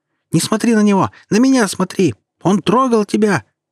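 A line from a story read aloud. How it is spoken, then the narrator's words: Mother shrieking nonstop. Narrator (Russian): Не переставала визжать, я же мать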